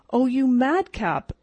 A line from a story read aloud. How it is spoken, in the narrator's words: exclaimed the elder girl